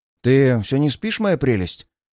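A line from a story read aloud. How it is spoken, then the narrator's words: Stated sadly. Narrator (Russian): грустно констатировал Чак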